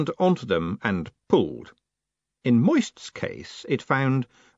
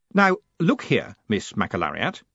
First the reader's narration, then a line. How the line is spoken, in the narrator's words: he said firmly